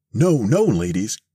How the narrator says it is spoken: cried Mr

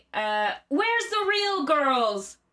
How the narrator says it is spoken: shouted

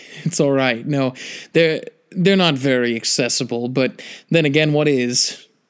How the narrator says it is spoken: he laughed a little and said

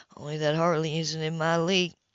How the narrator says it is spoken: he said in a husky, arrogant tone

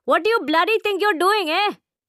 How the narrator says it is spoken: hollers

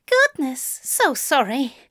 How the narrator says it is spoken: gasped

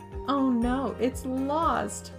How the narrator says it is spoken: Prin replied with a giggle

